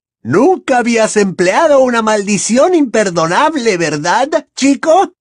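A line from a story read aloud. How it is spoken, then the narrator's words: Shout, childish tone dropped. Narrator (Spanish): gritó Bellatrix, que había abandonado aquella entonación infantil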